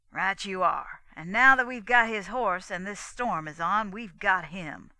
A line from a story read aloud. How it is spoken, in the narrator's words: said Rance triumphantly